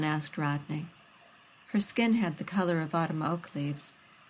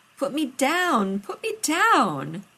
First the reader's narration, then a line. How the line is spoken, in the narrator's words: she shrieked